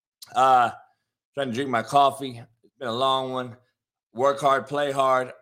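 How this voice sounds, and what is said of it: Strained, hoarse voice. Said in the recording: “lost my voice. I've been yelling.”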